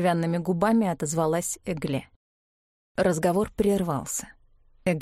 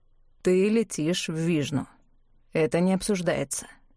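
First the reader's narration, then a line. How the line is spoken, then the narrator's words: Dry. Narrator (Russian): сухо сказал Клавдий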